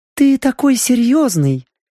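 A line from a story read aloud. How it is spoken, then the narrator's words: Cooing. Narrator (Russian): проворковала Вивьен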